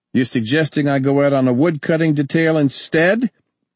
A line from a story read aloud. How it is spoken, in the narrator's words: Ernie snapped